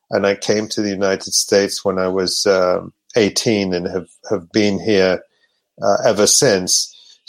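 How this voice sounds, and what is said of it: Accent with British influence. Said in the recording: “you can hear in my accent, I lived for some years in the UK and in Europe”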